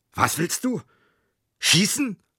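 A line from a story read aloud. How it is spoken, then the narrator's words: Roaring. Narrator (German): brüllte er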